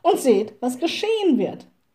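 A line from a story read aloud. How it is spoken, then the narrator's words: Little witch calling. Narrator (German): rief die kleine Hexe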